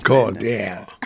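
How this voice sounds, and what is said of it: Put-on American accent. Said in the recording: “Did you put on the accent and everything? ... do a little bit of an American accent.”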